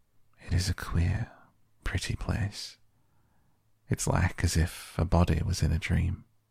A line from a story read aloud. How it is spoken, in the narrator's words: almost whispered